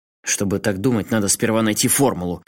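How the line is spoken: Snapping. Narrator (Russian): огрызнулся Асакава

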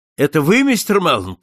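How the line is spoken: Familiar voice shouting. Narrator (Russian): кричал знакомый голос

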